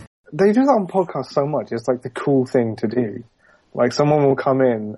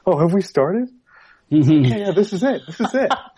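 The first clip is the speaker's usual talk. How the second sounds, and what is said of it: Put-on American accent. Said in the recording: “I love your American accent.”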